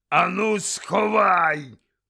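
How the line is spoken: Growl into ear. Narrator (Ukrainian): прогарчав йому в ухо дядько Вернон

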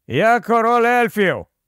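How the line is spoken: Shout. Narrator (Ukrainian): крикнув він

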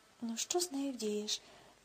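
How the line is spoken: Sighing to oneself. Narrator (Ukrainian): зітхнув про себе Рудольф

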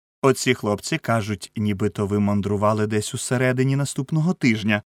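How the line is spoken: Cheerful greeting. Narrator (Ukrainian): весело зустрів редактор

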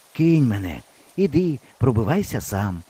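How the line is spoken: Hoarse, hopeless. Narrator (Ukrainian): сказав хрипло і безнадійно

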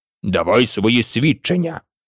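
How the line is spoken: King's angry repetition. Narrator (Ukrainian): сердито повторив король

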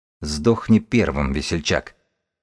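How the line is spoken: Scholar muttering. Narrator (Russian): пробормотал книжник

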